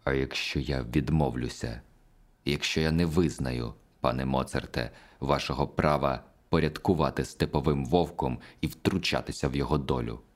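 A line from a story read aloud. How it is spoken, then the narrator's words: Quiet, through clenched teeth. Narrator (Ukrainian): Я спитав його тихо, зціпивши зуби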